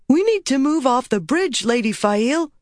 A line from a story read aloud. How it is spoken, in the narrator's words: Alvar cried